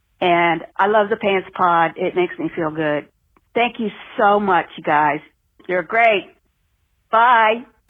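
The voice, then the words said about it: East Coast American accent. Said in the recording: “fantastic accent. Where do you think she's from? ... East Coast, I think.”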